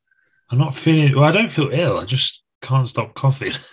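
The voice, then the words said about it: Sick, snuffly congested voice. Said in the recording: “as you can tell by my voice. ... You're a little bit poorly sick ... I've been a bit snuffly.”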